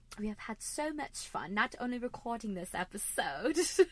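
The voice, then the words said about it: Poor put-on British accent. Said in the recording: “That was a terrible British accent”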